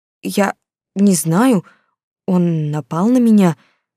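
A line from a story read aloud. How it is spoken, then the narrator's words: Stammering. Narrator (Russian): заикаясь, ответила я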